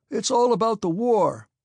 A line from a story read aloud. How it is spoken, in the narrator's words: the count shouted down the table